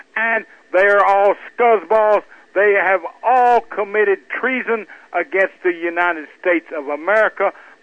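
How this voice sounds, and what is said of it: Southern Arkansas accent. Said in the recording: “I'm from Arkansas myself, as you can tell by my accent.”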